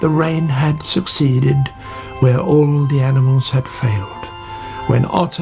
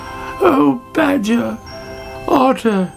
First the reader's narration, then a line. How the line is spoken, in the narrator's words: she cried